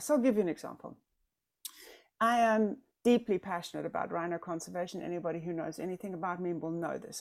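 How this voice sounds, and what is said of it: South African accent. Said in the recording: “I'm South African... just because of my accent”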